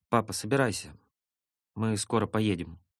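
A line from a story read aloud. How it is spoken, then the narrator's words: Said tenderly. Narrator (Russian): мама сказала ему ласково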